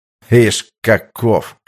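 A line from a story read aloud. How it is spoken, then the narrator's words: Ironic snort. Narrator (Russian): хмыкнув, иронично бросил Пятницкий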